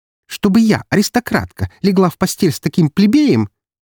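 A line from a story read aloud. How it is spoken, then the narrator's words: Displeased haughty tone. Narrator (Russian): Недовольно вздернув нос, произнесла Анастасия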